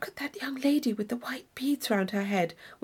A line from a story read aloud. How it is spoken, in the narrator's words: whispered Catherine